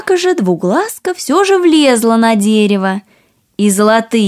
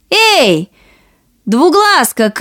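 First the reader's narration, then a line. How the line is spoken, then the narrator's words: Two sisters shouting. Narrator (Russian): крикнули обе сестры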